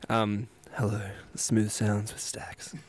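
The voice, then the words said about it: Smooth radio announcer voice. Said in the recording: “I try to get like a radio voice going.”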